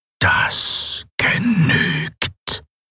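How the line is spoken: Mechanical whisper. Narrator (German): flüsterte die maschinelle Stimme Sylravans

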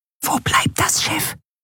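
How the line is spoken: Whisper in ear. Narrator (German): flüsterte Nelen ihr ins Ohr

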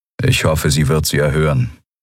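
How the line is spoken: Flat, toneless voice. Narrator (German): sagte Telios mit tonloser Stimme

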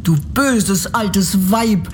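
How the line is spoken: Angry girl shouting. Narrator (German): rief das Mädchen und wurde so zornig

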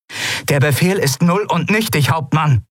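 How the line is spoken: Calling out. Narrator (German): rief Kalin

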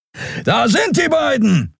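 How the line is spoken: Inhuman voice calling. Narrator (German): rief eine nichtmenschliche Stimme

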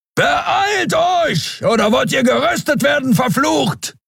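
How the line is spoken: Thundering shout. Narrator (German): donnerte Keru

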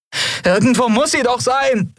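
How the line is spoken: Called out. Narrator (German): rief sie

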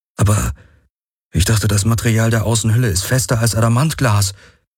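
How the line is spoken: Croaking. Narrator (German): krächzte Garland

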